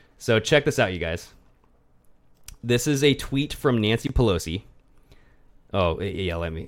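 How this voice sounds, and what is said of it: Usual voice. Nothing is said of it.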